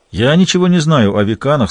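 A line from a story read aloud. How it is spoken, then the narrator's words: Plain. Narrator (Russian): сказал Гамаш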